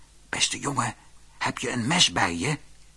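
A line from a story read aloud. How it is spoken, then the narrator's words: Whispering. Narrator (Dutch): hoorde hij het paard fluisteren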